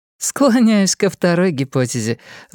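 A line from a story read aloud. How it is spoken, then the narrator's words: Laughing. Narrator (Russian): засмеялась Анна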